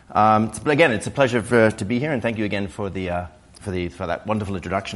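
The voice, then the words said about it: Hoarse voice. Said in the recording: “please excuse my rather hoarse voice. I'm getting over a cold from last week.”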